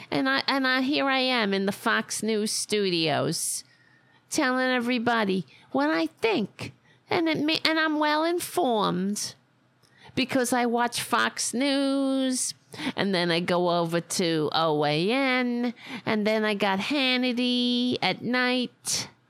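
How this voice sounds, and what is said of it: Put-on Staten Island accent. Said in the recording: “That's a Staten Island accent, by the way, and it's very irritating ... I sure sound like it. It's kind of like Long Island. a little bit, except it's more annoying.”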